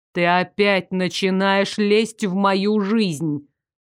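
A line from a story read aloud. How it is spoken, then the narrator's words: Even tone, suppressed indignation. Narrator (Russian): Процедил Даррек все тем же, удивительно ровным тоном, лишь каким-то чудом не сорвавшись на возмущенный вопль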